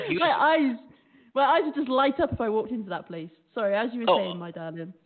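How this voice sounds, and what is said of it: British accent. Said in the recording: “It's an accent. It's a British accent”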